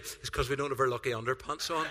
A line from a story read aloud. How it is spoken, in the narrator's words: Alan whispers to me